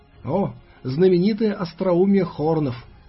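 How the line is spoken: Ghostly snort. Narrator (Russian): хмыкнул фантом

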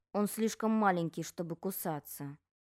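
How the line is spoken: Muttering. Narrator (Russian): пробормотал сын

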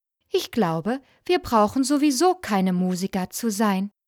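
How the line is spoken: Plain. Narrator (German): sagte der Hahn

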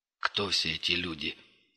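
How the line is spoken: Quiet question. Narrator (Russian): тихо спросил Крот

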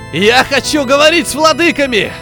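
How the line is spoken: Shouting. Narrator (Russian): закричал он

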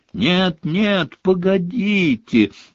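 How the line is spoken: Shrill echoing squeal. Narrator (Russian): взвизгнула Плакса Миртл, и по туалету разнеслось громкое эхо

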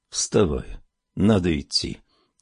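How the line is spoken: Soft quiet voice. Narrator (Russian): тихонько проговорил он

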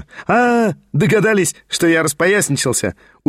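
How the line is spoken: Very merry laughter. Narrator (Russian): Ужасно весело рассмеялся и Петр Степанович

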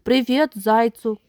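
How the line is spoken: Shout. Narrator (Russian): крикнул крот

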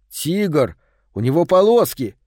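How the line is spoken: Angry reply. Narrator (Russian): сердито ответил он

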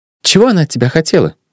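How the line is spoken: Displeased inquiry. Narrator (Russian): Не самым довольным тоном осведомилась Нюбка

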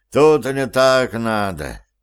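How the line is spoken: Sigh. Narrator (Russian): вздохнул Валер

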